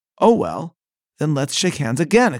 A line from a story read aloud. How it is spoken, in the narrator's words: exclaimed Churchill